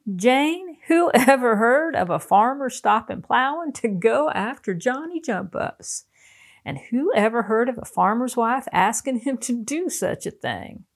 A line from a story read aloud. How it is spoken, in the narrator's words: he burst out laughing, and says he